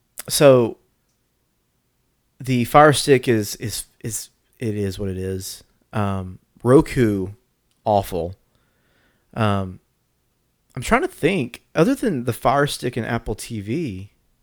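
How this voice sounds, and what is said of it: Congested voice from a cold. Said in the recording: “I'm getting a tissue. ... I've got a little bit of a cold. I'm fighting.”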